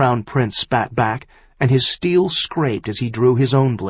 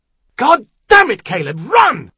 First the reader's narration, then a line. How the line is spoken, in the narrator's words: Falcon bellowed